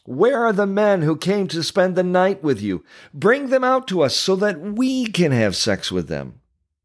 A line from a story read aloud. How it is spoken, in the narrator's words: they shouted to Lot